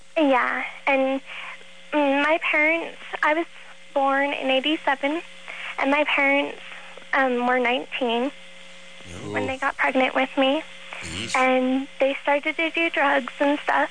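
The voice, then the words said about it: Childlike, very young-sounding voice. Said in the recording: “little girl voice ... You sound like you're four.”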